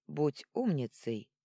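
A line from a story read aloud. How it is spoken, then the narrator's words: Dry. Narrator (Russian): сухо посоветовал Арман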